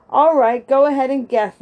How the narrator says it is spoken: laughed Joe

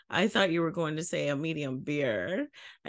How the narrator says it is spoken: the girl behind the counter started laughing and said

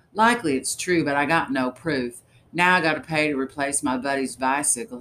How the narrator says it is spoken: sighed loudly

